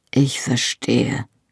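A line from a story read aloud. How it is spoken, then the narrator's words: Murmuring. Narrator (German): murmelte Jamie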